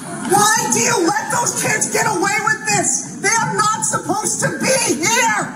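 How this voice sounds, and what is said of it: Loud, raised angry voice. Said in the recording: “If you don't lower your voice ... Lower your voice.”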